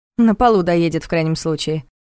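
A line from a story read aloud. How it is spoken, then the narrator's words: Dismissive snort. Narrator (Russian): фыркнула Саша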